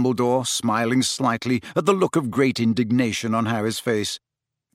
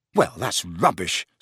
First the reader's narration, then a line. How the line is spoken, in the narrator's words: snapped Harry